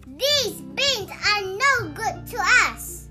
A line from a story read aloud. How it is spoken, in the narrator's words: cried